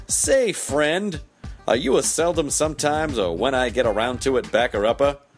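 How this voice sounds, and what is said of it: Put-on character voice. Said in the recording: “I don't know why I'm doing this voice.”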